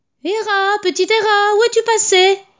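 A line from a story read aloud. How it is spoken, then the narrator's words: Shouting everywhere. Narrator (French): criait-il partout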